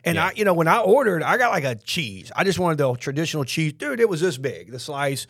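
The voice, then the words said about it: Southern US accent. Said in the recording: “I think I have an accent. I guess I have a Southern accent”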